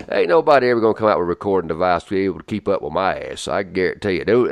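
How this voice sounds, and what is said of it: Strong accent, fast speech. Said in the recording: “between my accent and the speed at which I talk once I start moving my lips, ain't nobody ever going to keep up with it”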